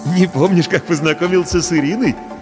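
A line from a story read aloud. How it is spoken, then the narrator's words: Forced laugh. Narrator (Russian): Делано рассмеялся Паша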